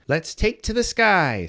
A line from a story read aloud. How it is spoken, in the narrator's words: Skye exclaimed